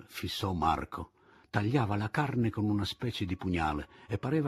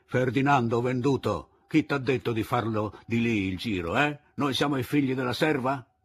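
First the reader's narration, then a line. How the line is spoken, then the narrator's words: Group shouting. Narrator (Italian): gridarono al cuciniere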